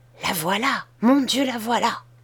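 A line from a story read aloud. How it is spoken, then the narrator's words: Said quietly. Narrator (French): dit tout bas Betty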